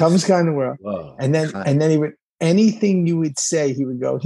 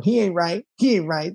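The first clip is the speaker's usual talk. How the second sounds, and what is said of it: Imitates another person's weird voice. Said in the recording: “he had that really weird voice.”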